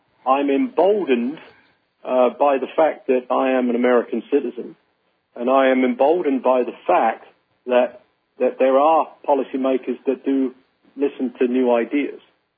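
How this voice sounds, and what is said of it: Northern Indiana American accent. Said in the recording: “my Northern Indiana accent”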